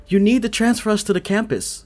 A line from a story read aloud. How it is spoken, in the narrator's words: Chase yells